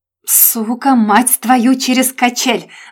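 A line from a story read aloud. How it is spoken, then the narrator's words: Deafening roar. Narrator (Russian): взревел Женя так громко, что у меня уши заложило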